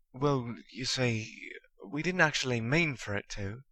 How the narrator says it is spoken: Ron stammered

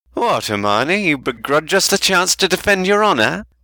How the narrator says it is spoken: cried Fred, with a wounded expression

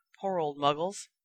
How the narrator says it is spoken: muttered Ron

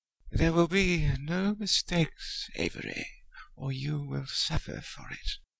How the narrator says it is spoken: Harry said in a high, cold, cruel voice

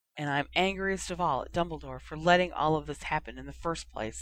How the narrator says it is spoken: A very quiet voice murmured

